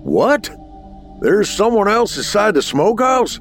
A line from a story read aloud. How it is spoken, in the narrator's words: his father yelled above the roar of the water and men fighting the flames